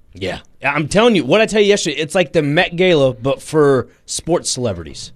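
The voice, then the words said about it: Southern twang. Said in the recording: “It's a Southern thing. ... It's my southern twang”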